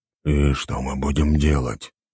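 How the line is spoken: Whisper in the ear. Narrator (Russian): прошептал ей на ухо

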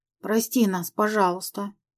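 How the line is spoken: Quiet, muffled. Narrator (Russian): Редко зарылась лицом в мягкую ткань моей пижамы и тихо произнесла

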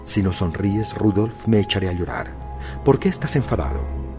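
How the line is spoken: Soft, embarrassed giggle. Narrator (Spanish): Flavia dijo suavemente, con una risita algo avergonzada

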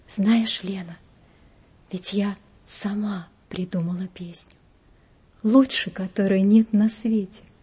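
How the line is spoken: Whisper close to ear. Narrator (Russian): К самому уху ее склонившись, я прошептала

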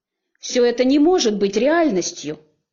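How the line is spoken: Yelled. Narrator (Russian): заорала я

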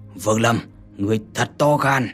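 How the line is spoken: Old man's sudden loud shout. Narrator (Vietnamese): lão đột nhiên xoay người lớn tiếng quát

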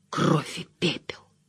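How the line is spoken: Barely audible. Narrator (Russian): едва слышно вымолвил Мэтт

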